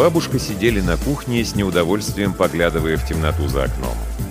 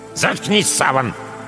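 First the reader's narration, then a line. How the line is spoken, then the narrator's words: Grandmother's sharp scolding shout. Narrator (Russian): прикрикнула на него бабушка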